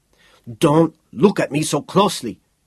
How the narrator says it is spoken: he said sharply

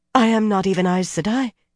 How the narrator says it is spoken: she said breathlessly

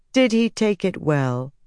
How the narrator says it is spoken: Nynaeve repeated flatly

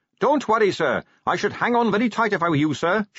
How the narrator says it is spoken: shouted Carrot above the rising wind

